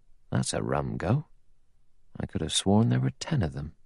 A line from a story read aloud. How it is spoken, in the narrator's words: He muttered to himself